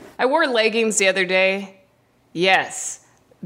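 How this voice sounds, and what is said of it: Usual voice. Nothing is said of it.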